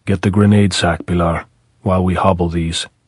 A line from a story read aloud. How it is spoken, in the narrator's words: Pablo say very softly